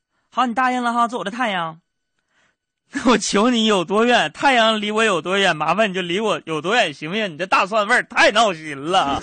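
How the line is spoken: Laughing woman. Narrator (Chinese): 这女的笑着对我说

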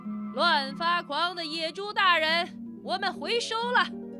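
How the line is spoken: Raised loud shout. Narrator (Chinese): 狼提高嗓门喊了起来

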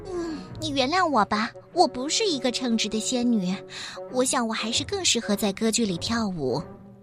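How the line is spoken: Helpless sigh. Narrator (Chinese): 仙女无奈的叹了口气

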